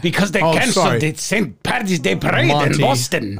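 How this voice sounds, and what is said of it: Bad Irish brogue, sounds Russian-Polish. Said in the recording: “This is not an Irish accent ... What is that accent? ... It's a brogue, mate. ... No, it's not. ... It's like this Russian, Polish...”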